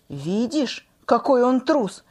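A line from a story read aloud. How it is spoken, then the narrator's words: Plain. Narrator (Russian): сказал Зинзивер Зиньке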